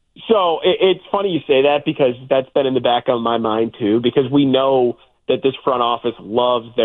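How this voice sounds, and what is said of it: Usual voice. Nothing is said of it.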